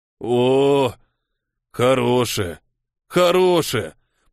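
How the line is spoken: Drawn-out, soothing. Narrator (Russian): протянул он

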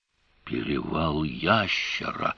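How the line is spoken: Breathless exclamation. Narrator (Russian): выдохнул Певер

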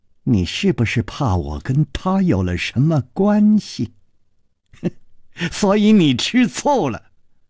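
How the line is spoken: Sly mocking laugh. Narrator (Chinese): 宫南燕不怀好意地笑着说

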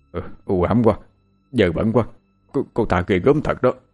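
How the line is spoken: Old man trembling. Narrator (Vietnamese): Ông run rẩy nói

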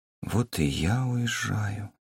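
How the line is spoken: Quiet. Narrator (Russian): тихо произнесла

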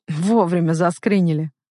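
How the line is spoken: Snort. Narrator (Russian): хмыкнул Саша

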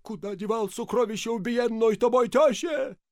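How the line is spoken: Hoarse shout. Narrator (Russian): закричал охрипшим голосом

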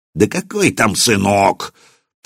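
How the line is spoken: Hissed in pain. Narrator (Russian): Поротый сморщился от боли, прошипел

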